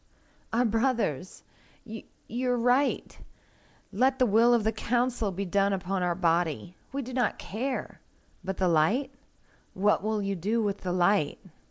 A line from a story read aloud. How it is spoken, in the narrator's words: we pleaded